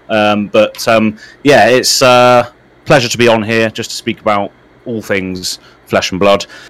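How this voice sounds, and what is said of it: British accent. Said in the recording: “As you can tell from my accent, I am from the UK, United Kingdom”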